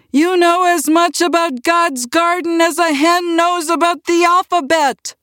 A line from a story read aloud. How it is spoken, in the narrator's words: He was shouting